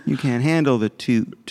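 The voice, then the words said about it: Jack Nicholson impression. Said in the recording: “his Jack Nicholson impression”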